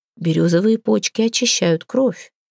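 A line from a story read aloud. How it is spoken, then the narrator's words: Grandmother's whisper. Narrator (Russian): шептал ей голос бабушки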